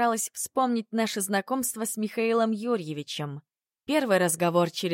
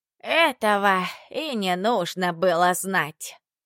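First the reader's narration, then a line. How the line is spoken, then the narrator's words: Muffled reply. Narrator (Russian): глухо ответила Дульсинея Тарасовна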